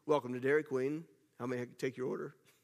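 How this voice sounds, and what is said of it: Put-on drive-through intercom voice. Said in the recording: “I had to develop my Dairy Queen voice ... I tried not to make it too sultry”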